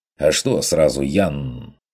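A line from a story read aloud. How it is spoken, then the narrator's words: Snapping retort. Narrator (Russian): огрызнулся охотник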